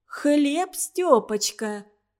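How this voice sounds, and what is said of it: Friendly, affectionate cooing patter. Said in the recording (Russian): “приветливо-ласковый говорок”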